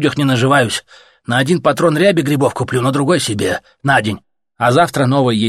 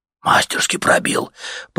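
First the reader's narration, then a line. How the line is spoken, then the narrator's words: Respectful whisper from crowd. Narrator (Russian): прошептал уважительно кто-то в собравшейся вокруг толпе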